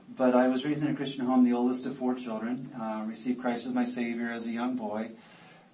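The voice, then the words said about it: Mixed American regional accent. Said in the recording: “my accent ... what kind of accent do you have? I said, New Jersey, Georgia, Canada, Tennessee.”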